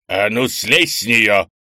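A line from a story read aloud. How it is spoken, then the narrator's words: Barked. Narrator (Russian): рявкнул Крис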